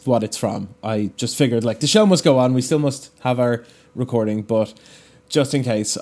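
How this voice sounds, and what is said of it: Hoarse, damaged voice. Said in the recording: “I absolutely shredded my voice ... took my voice away for like 3 or 4 hours last night, and I haven't fully recovered ... I have a weird sound in my voice ... I sound terrible”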